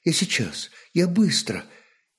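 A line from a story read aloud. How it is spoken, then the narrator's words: Quiet speech. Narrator (Russian): Княгиня промолвила тихо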